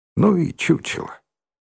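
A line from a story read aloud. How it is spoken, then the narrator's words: Contemptuous snort, quiet. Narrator (Russian): Презрительно фыркнула и тихо сказала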